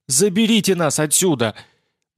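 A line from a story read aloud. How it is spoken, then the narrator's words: Very loud scream. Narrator (Russian): Блондинка закричала так, что с площадки рядом с высоткой снялась стая голубей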